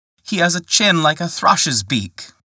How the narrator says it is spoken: cried out, laughing

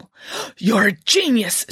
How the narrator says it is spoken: exclaimed

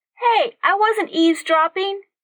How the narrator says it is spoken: she yelled at his retreating back

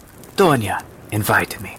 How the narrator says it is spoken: said the woman

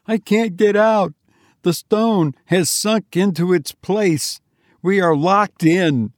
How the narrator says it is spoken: he screamed

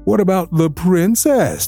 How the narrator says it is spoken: they said with a laugh

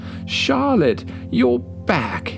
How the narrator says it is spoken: exclaimed Polar Bear, his voice filled with warmth

